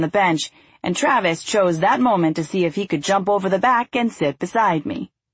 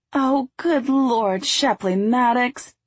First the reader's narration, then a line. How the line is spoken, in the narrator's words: Deanna wailed